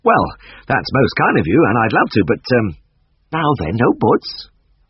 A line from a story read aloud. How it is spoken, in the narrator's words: she laughed